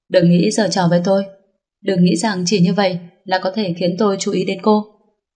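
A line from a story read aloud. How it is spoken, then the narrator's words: Cold man. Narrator (Vietnamese): tên đàn ông kia lạnh lùng nói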